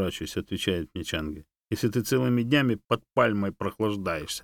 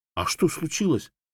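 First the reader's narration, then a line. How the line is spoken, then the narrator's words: Worried question while moving. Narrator (Russian): взволнованно спросил я уже на ходу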